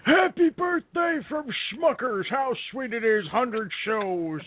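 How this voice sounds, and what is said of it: Imitates another person's voice. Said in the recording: “my Willard Scott voice”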